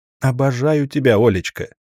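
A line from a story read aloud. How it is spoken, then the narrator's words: Laughing heartily. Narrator (Russian): Я расхохотался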